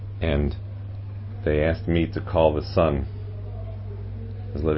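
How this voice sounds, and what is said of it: Usual voice. Nothing is said of it.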